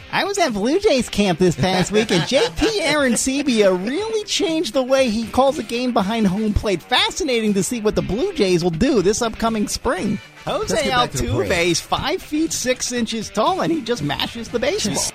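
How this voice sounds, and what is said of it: Imitates another person's voice. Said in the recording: “my Timmy Kirchner impersonation”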